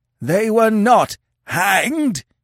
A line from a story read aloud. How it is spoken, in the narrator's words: screeched